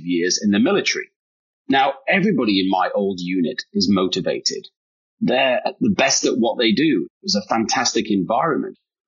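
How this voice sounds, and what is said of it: British accent. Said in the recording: “the accent is real. I am British, just like you.”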